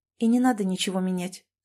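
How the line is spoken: Calm. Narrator (Russian): сказала Саша спокойно

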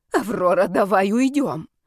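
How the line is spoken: Hissed. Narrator (Russian): прошипела Ребекка

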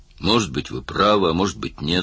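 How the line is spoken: Plain. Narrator (Russian): сказал Мерс

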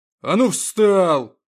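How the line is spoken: Guard barking. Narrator (Russian): рявкнул стражник

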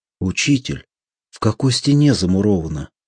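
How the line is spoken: Plain. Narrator (Russian): спросил Ромас

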